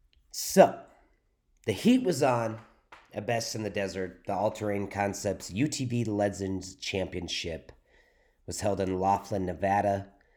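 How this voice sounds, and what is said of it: Slightly hoarse voice. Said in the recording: “My voice is a little hoarse,... I am fighting my allergies”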